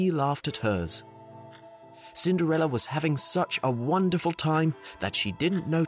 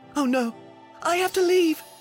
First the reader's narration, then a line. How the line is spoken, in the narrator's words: gasped Cinderella